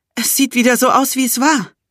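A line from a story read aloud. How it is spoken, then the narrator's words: Panting. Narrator (German): keuchte ich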